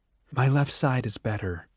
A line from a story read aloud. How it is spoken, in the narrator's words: she murmured